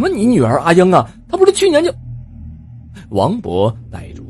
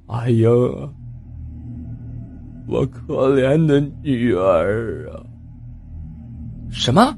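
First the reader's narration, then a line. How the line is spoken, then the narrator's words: Dazed murmuring. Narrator (Chinese): 喃喃的说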